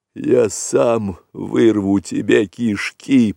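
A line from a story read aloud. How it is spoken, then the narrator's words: Hoarse rasp. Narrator (Russian): прохрипел вожак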